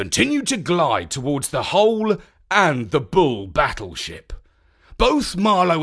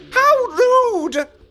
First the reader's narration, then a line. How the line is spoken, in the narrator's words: She exclaimed